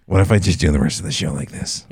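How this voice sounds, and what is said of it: Low gravelly, slightly nasal put-on voice. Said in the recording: “your general annoying people impression ... just a low gravelly voice ... With a little bit of like nasal in it ... Sounds like a bad Batman”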